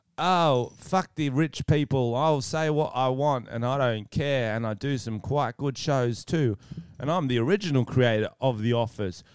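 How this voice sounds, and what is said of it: Imitates another person's voice. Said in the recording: “I'm a famous comedian... It was Ricky Gervais”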